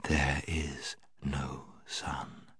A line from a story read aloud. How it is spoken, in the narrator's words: She repeated, in a softer and deeper voice